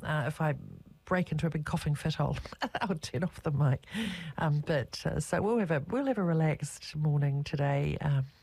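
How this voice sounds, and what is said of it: Rough, slightly hoarse voice. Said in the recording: “I've had a bit of lurgy, and so my voice is a little bit rough.”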